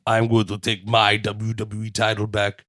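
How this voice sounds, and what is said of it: Low gravelly Arnold impression. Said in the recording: “if Jinder was doing Arnold impersonation... It's terrible. I was trying to do the low voice... He has like a very low gravelly voice”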